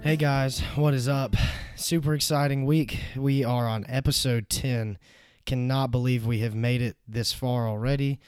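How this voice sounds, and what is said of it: Hoarse, sick voice. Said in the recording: “I am kind of sick this week. I'm losing my voice. Got a sore throat”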